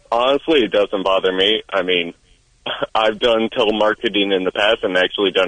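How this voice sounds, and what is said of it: Nasal, monotone, slightly sick voice. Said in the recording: “my voice is a little nasally, a little too monotone. ... It is both of those things. ... You do sound a little sick.”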